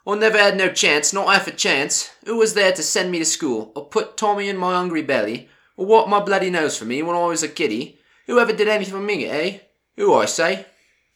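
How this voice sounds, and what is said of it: Put-on Cockney accent. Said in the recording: “Best attempt at a Cockney accent. Please forgive me.”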